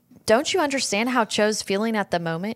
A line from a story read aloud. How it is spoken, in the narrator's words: she asked